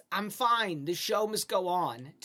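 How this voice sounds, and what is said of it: Put-on New York accent. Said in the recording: “she has like a New York accent all of a sudden... she kind of sounds like a short red-haired guy”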